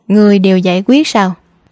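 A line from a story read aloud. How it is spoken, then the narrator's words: Cold sneer. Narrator (Vietnamese): Mộ Dung Nhu khóe miệng nhếch lên nụ cười lạnh lùng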